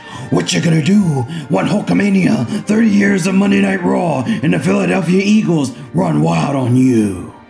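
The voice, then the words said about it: Hulk Hogan impression. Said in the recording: “Hulk Hogan ... I gotta do the voice.”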